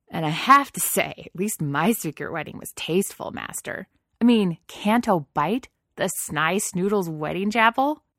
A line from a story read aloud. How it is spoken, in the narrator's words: snorted a laugh